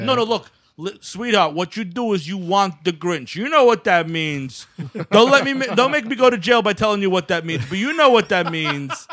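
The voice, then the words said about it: Crude New York dude impression. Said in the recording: “what fucking disgusting Pelham Parkway dude did Ron Howard bring on the set with that impression? ... that was a weird Ron Howard”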